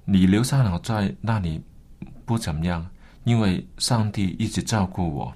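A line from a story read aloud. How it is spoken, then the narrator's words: Gentle. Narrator (Chinese): 温柔对他的爸爸说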